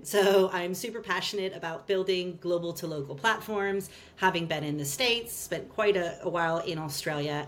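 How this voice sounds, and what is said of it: American accent. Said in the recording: “You'll hear from my accent, I'm American.”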